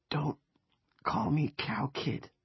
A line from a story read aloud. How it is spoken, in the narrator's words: he whispered